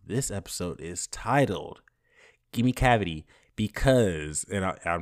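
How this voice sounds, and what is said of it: Usual voice. Nothing is said of it.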